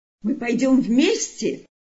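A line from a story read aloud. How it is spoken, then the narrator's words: Delighted exclamation. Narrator (Russian): воскликнул обрадованный Иосиф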